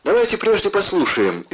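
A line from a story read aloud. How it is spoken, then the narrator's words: Cheerful reply from an emperor. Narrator (Russian): весело отозвался император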